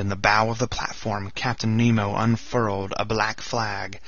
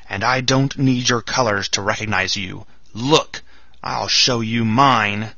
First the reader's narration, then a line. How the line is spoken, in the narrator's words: he shouted in his powerful voice